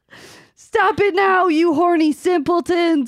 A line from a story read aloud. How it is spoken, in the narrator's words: shouted Professor McGoggle